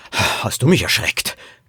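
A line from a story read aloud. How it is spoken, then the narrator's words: Father gasping. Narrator (German): keuchte Poppys Vater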